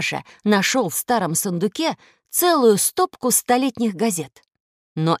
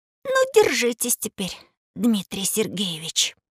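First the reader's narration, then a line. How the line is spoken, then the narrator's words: Quiet. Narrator (Russian): тихо произнес Рыжиков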